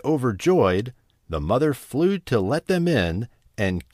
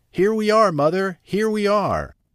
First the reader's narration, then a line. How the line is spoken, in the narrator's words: The children cried out